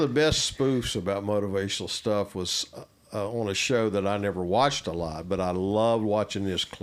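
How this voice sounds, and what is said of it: Usual voice. Nothing is said of it.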